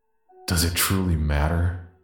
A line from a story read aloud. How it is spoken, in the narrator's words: will sigh darkly